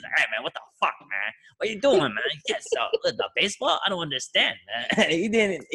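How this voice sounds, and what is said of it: Imitates another person's voice. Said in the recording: “I was trying to do a Hattori voice.”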